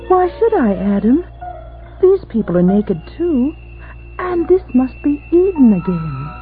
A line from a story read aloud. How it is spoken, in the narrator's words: Eve said coolly